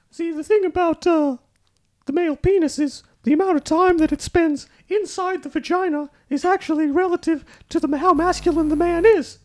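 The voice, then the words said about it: Imitates another person's voice, pitched higher. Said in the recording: “my fantastic Jordan Peterson impression ... Not bad. A few octaves above JP”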